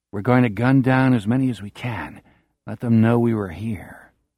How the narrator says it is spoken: Jack Sawyer says very softly

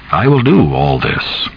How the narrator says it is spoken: Rainbird said kindly

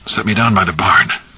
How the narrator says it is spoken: Irv gasped

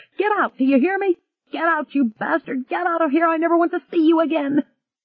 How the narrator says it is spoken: a woman screamed

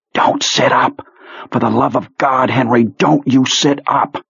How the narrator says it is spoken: Owen whispered fiercely into Henry's ear

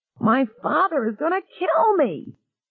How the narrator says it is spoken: he wailed

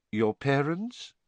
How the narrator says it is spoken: said Dumbledore quietly

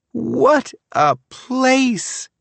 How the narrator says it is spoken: Tammy exclaimed

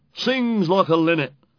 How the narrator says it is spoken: said the top Ros sneery

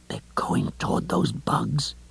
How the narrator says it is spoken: Lois whispered fiercely at him

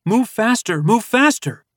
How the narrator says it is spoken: his impatience grew, and he called out

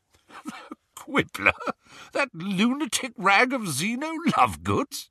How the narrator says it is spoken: he spluttered

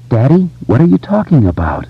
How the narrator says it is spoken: she asked in a low, trembling voice

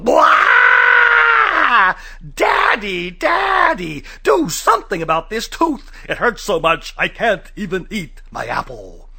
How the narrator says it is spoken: Andrew yelled

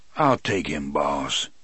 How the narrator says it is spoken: the voice rumbled from behind me

